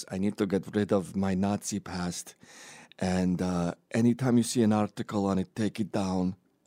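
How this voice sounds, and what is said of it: George Soros impression, new accent. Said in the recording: “totally new accent for Soros this time round”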